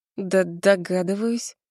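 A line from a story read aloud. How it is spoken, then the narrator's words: Hoarse, strained voice. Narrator (Russian): отвечаю севшим голосом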